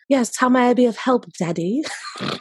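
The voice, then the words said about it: Put-on English accent. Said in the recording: “I have to do an accent or something to differentiate, and I only know how to do an English accent ... This person's not English, but I just need you to have differentiating voices”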